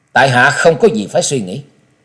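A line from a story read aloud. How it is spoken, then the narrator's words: Cold reply. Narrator (Vietnamese): Trần Lâm giọng lạnh lùng trả lời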